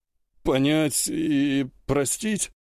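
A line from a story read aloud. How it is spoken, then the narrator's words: Uncertain yelp. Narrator (Russian): неуверенно вякнул белобрысый крепыш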